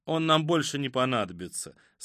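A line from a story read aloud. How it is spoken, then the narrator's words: Calm. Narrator (Russian): спокойно сказал Лапара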